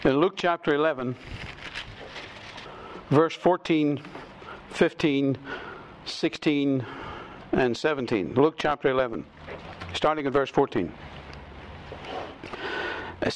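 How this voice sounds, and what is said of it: Noticeable accent. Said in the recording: “if you've got trouble with my accent”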